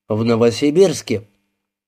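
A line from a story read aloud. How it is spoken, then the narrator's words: Calm answer. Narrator (Russian): ответил спокойно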